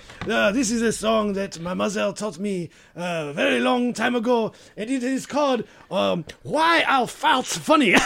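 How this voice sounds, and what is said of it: Slight put-on French accent. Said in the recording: “I'm detecting a bit of a French accent.”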